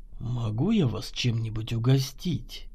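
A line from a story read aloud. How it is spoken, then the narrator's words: Velvety purr. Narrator (Russian): Напустив в голос максимального бархата, промурлыкал Чернов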